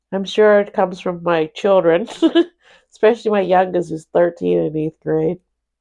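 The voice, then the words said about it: Congested, stuffy-nosed voice. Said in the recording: “I'm a little sick... My nose is stuffed up. I have a sore throat.”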